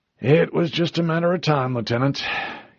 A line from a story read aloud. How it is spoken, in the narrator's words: he sighed